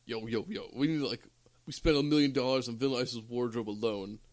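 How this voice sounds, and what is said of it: Affected dumb-sounding voice. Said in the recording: “I know I'm affecting this dumb voice, but this is what he sounds like in this movie”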